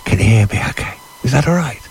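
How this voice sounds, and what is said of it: Whispering. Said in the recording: “I promised I won't shout ... I will whisper, okay? I will whisper ... A little bit of a whisper.”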